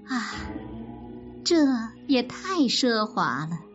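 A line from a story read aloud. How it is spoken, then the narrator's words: Sighing. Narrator (Chinese): 元春叹道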